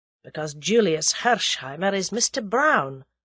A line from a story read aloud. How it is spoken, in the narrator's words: said Sir James dryly